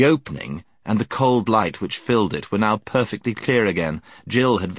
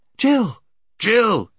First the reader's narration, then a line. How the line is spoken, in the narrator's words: they shouted frantically